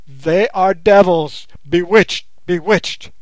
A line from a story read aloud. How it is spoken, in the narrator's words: the man stared aghast ... he yelled out at the top of his voice